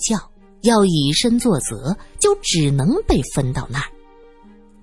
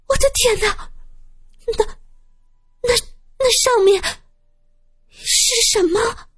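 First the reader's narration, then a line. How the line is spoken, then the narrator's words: Young woman, trembling voice. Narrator (Chinese): 一个妹子指着天窗，声音有些发抖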